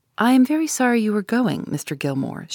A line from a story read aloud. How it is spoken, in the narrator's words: she said, looking at me kindly